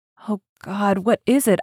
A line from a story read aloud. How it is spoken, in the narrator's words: I gasped